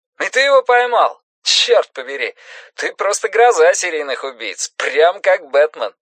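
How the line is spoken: Laughing. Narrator (Russian): Гурни засмеялся

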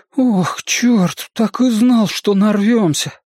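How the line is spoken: Groan. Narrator (Russian): простонал Бен

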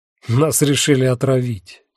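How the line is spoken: Unpleasant laugh. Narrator (Russian): неприятно рассмеялся Ван Фрассен

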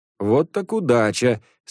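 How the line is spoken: Laughing exclamation. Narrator (Russian): смеясь, воскликнул он

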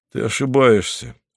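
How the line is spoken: Even voice. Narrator (Russian): сказал Поль ровным голосом

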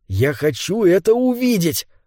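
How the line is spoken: Excited. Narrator (Russian): взволнованно сказал он

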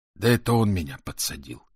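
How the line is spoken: Sighing. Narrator (Russian): вздохнул Азирис

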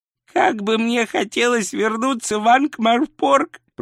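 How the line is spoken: Moaning. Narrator (Russian): простонал Ринсвинд

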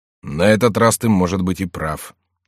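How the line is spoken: Grumbling. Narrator (Russian): проворчал Коконно

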